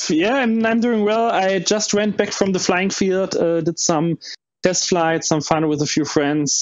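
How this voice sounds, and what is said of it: Slight German accent. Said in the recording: “someone with a slight German accent”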